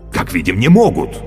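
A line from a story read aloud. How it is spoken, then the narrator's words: Exclaimed. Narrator (Russian): воскликнул Каще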